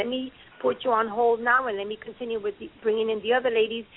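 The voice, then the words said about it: Spanish accent. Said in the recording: “forgive me for my Spanish accent.”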